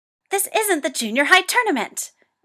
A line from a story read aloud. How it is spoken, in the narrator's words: Toya shrieks